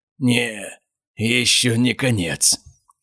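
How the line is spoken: Hoarse wheeze. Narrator (Russian): прохрипел Эдмонд

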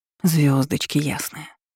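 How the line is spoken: Breathless mutter. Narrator (Russian): пробормотала, с трудом выравнивая дыхание

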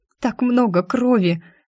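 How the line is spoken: Sobbing. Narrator (Russian): Всхлипнула

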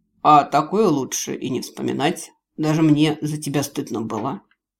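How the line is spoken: Mocking snort. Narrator (Russian): Гард хмыкнул и ответил как-то с издевкой

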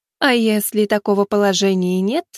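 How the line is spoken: Snide addition. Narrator (Russian): вслед ему ехидно добавила

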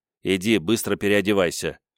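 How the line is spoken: Displeased mutter. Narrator (Russian): недовольно буркнул Кейти

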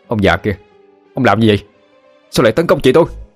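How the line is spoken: Roaring. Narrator (Vietnamese): Quý gầm lên

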